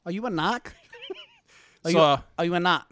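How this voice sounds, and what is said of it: Put-on Boston accent. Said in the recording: “I'm going to wake my wife up in the Boston accent ... I'm doing it.”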